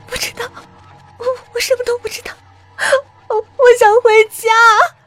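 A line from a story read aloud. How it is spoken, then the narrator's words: Crying. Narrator (Chinese): 甜甜哭着说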